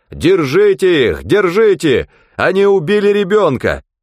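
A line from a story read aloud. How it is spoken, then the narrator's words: Man shouting while running. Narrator (Russian): мужчина, бежавший вслед за автомобилем с места несчастья, кричал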